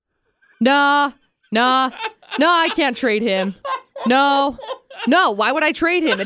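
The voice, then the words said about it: Impression of radio host AJ. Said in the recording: “your best AJ impression ... That was not bad.”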